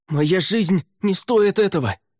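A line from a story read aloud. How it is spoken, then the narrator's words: Shouted. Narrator (Russian): крикнул Неррель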